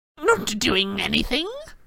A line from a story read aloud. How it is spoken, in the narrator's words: cackled Peeves